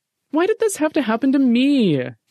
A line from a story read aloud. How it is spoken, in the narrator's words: Jeffy whined